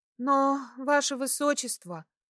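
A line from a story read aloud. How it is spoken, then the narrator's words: Sighing. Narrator (Russian): вздохнула Кристина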